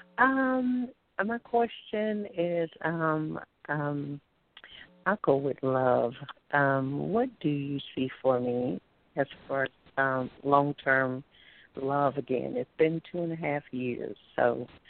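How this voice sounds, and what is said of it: Alabama accent. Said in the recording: “From Alabama. ... I love your accent.”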